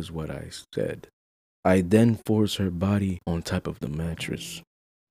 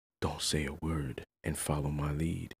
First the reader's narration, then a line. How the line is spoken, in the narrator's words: I whisper in her ear